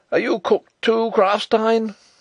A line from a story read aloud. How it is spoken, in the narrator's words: he cried